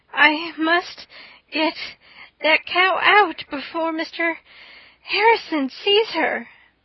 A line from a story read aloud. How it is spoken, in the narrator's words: gasped Anne